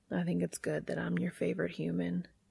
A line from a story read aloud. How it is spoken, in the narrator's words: he whisper against Castiel's lips